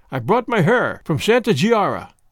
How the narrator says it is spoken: I said

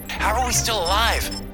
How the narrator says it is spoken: Rikers called out

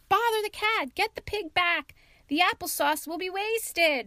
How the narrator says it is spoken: shrieked the cook

